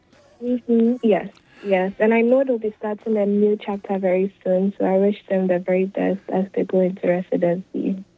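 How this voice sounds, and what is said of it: Ghanaian-accented English. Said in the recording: “I love this accent, and because you're from Ghana”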